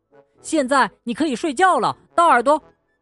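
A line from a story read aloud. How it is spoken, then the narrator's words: Shout. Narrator (Chinese): 他喊道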